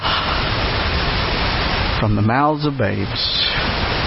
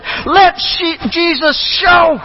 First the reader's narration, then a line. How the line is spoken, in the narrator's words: She called out and said